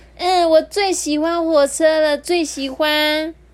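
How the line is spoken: Loud. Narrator (Chinese): 熊熊，就大声说

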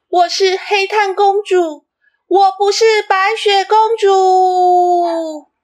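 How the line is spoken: Loudest voice. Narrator (Chinese): 其中有一个最大声的声音是

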